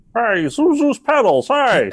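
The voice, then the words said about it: Imitates another person's voice. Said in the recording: “That is a great Stewart impression.”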